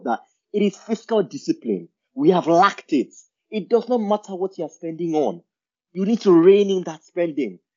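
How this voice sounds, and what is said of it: Raised, agitated voice. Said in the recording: “raising my voice ... this does get me a bit riled up”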